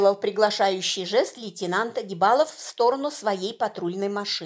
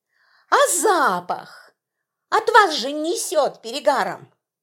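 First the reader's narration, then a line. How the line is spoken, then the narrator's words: Joyful exclamation. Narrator (Russian): Гаишники радостно воскликнули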